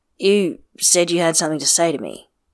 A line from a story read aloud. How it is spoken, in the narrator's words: he says stiffly